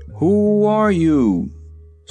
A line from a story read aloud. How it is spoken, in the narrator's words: the Shaggy Man called out in a loud voice